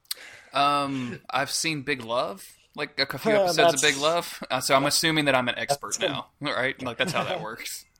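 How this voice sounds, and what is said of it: Southern American accent. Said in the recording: “You have that kind of Southern accent”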